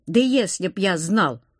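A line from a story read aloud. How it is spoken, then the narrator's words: Snapping. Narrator (Russian): огрызнулся этот, четырехглазый с щупальцами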